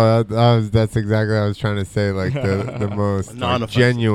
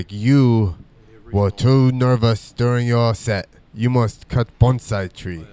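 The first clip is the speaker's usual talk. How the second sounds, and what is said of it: Put-on Japanese accent. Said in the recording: “that's supposed to be a Japanese accent? ... that was Mr. Miyagi.”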